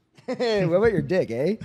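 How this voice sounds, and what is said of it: Exaggerated Canadian accent. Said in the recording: “Can we get like a real Canadian eh? ... There we go.”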